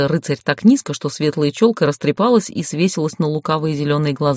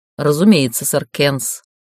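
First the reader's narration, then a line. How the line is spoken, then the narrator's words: Cold tone. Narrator (Russian): холодно произнесла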